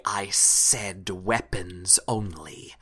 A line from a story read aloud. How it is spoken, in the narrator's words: you hear the ice devil go up to her and sort of hiss angrily